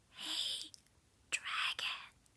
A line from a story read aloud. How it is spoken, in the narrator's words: Elizabeth whispered very softly